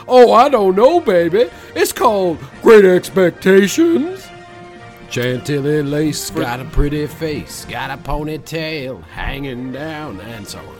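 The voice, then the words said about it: Imitates another person's singing voice. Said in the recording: “doing a Big Bopper impression”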